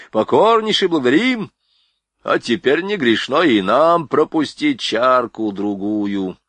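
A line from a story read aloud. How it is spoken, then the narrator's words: Deep bass voice. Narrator (Russian): пробасил Борейко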